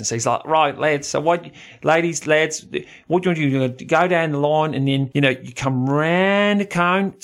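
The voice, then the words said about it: Put-on Australian accent. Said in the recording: “I'm going to do my best Aussie accent.”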